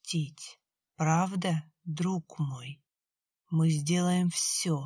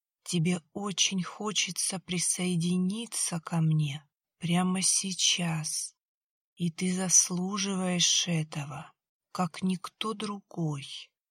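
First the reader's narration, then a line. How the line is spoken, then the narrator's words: Sad. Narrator (Russian): печально промолвил Хес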